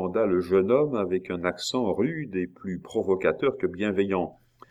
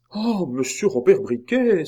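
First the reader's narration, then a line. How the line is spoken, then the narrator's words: Young monk exclaiming. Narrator (French): s'écria le moinillon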